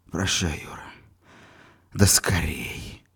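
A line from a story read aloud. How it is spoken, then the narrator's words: Wounded man's whisper. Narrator (Russian): прошептал раненый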